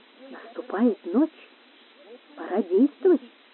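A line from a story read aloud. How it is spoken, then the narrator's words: Quiet. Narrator (Russian): проговорил тихо Гонсалес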